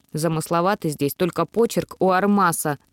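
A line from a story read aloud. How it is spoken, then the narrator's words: Snorting. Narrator (Russian): фыркнула я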